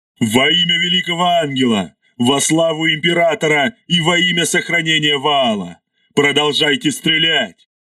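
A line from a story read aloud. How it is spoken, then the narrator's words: Roared. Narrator (Russian): взревел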